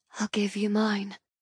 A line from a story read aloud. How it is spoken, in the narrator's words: I whisper, blowing gently against his lips